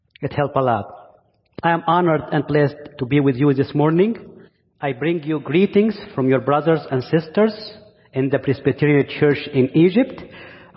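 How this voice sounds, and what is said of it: Egyptian-accented English. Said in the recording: “my Egyptian accent ... preachers with accent”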